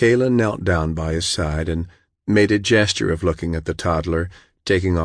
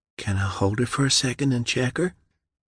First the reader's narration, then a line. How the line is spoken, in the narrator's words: Michaela whispered